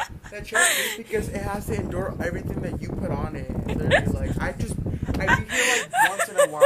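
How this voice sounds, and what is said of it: Usual voice. Nothing is said of it.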